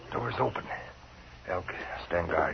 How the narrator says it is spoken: he whispered

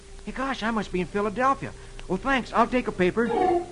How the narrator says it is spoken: Dick exclaims

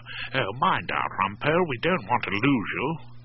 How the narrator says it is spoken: Claude Erskine Brown did have the decency to mutter

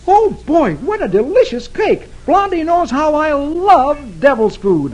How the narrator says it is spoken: exclaiming

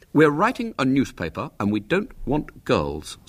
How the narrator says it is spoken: said William firmly

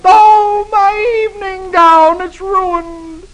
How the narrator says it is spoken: wails

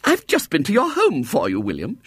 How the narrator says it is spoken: exclaimed

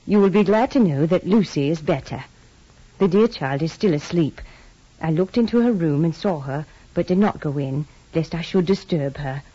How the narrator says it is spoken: She greeted us warmly and said

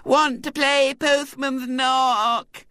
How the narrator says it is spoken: Violet Elizabeth's wail

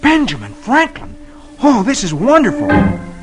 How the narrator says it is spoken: exclaims

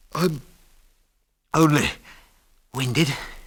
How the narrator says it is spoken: he stammered

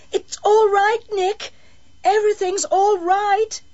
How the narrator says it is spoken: she called out

